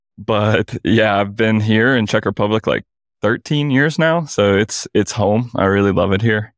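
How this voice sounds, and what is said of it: Southern US drawl. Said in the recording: “born and raised in Mississippi. So that is a dialect you're hearing there, that southern accent. So I do have the old southern drawl.”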